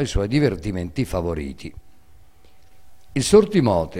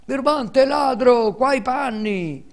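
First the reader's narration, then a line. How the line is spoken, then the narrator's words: Two unhappy boys shouting. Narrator (Italian): urlavano i due infelici garzoni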